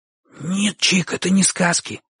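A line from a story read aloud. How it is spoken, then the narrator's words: Heated whisper. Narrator (Russian): шепотом горячился Бочу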